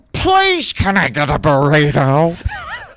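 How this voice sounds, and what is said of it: Imitates another person's voice. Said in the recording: “my impression of Bob Terrace trying to order a burrito”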